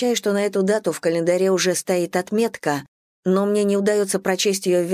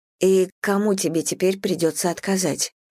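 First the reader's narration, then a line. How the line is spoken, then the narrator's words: Quiet question. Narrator (Russian): тихо спрашиваю у него я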